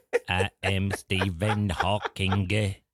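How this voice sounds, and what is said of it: Robotic synthesized voice with French accent. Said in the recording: “your robot voice ... Retro robot futurism ... that voice, that's old school ... That 1980s classic retro futurism ... It still has a French accent”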